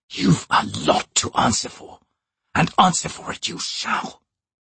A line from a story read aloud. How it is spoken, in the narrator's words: he whispered